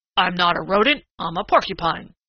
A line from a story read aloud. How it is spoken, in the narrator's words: grunted Prickly Porky indignantly